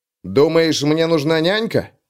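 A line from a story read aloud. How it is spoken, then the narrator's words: Snapping retort. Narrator (Russian): огрызнулся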